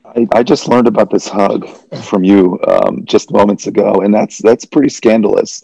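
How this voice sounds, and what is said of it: Hoarse, worn-out voice. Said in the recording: “I've got a few hours of sleep in me, as you can hear. My voice is a little worse for the wear ... I yelled quite a bit”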